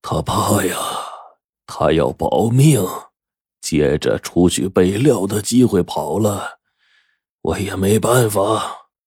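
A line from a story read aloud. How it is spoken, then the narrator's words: Hoarse voice. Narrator (Chinese): 陈润根……用嘶哑的声音说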